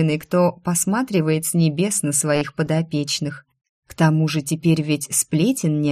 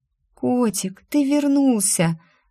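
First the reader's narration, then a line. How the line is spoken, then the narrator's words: Joyful whisper. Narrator (Russian): радостно позвала я шепотом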